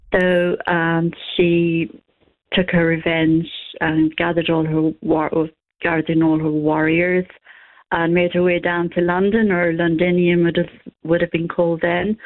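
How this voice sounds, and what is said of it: Irish accent. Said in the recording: “in your Irish accent”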